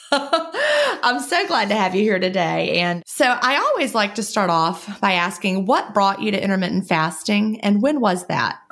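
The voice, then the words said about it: Southern US accent. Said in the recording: “I'm down here in the southern United States... I apologize for my accent.”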